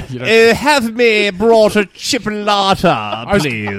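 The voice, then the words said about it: Exaggerated put-on British accent. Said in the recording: “you said chipolata in a British accent, and it sounded like the most British thing I've ever heard of”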